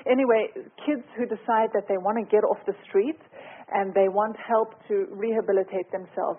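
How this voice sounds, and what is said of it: South African accent. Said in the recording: “As you can hear from my accent, I'm South African”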